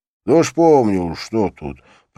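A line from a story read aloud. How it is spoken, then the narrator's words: Grumbling under breath. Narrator (Russian): проворчал себе под нос Петрушка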